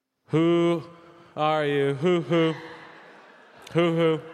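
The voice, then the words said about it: Imitates another person's karaoke singing. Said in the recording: “my impression of Big Mike doing the Who's Who Are You?”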